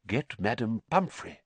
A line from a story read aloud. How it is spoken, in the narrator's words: whispered Dumbledore